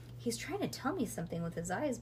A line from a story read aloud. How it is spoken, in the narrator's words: whispered Ivy